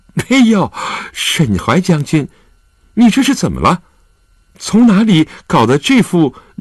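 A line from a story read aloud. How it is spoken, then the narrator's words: Sudden giggle. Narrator (Chinese): 周静元……突然扑哧一笑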